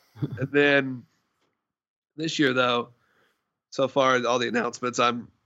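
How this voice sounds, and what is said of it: Voice cracks mid-sentence. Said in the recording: “my voice cracked. It's getting late. ... voice squeaked.”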